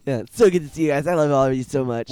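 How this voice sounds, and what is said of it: Exaggerated impression of his own voice. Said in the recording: “you sound different than your normal self ... Doing an impression of me. ... That's a terrible impression of you.”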